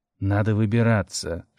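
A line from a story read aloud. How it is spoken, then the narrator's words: Whisper. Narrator (Russian): шепнул Алю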